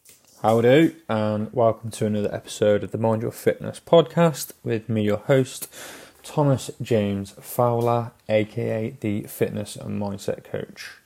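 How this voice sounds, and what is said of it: Slightly hoarse voice. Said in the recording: “my voice is a little bit more hoarse ... A little bit more hoarse than it would normally be”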